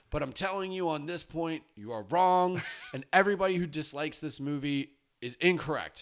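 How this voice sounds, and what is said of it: Yelling, loud angry voice. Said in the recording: “sorry for yelling”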